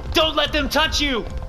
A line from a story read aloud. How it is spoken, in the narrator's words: I shout